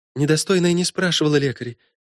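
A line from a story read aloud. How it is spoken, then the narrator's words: Timid babbling, trapped. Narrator (Russian): пролепетала Мелит, понимая, что теперь не уйти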